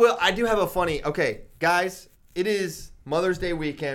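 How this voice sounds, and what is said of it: Usual voice. Nothing is said of it.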